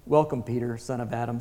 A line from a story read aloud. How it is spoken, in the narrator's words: said Aslan